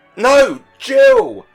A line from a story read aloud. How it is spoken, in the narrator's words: cried both the parents